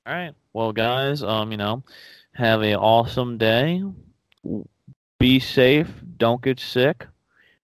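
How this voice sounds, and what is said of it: Speaks in a put-on accent. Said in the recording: “I don't know why I'm talking in this accent, but I'm talking in this accent”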